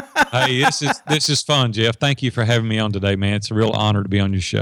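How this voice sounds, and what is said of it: Southern country accent. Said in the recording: “talking like you live in the South ... I sound so country. I can't get rid of it”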